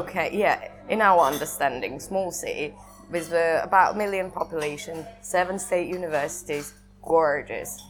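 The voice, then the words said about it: Northern English accent. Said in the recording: “How often did she live in the north of England? ... How did the accent get like this?”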